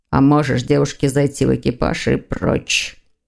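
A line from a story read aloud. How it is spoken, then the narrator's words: Growling bark. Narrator (Russian): рыкнул Лефевр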